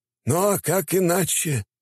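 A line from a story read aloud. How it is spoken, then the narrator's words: Minister sighing. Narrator (Russian): вздохнул министр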